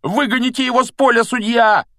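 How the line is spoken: Agitated yelling from stands. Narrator (Russian): вопил с трибуны так и не успокоившийся Дин Томас

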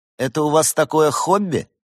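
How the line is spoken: Snorting. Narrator (Russian): хмыкнул Бенедикт

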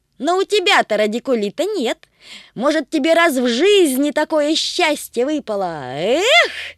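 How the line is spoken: Shouting. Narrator (Russian): крикнул Тришка

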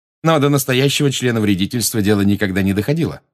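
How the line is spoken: Plain. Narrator (Russian): сказал Фред

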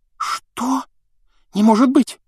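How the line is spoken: Startled cry. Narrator (Russian): вскрикнула Гермиона

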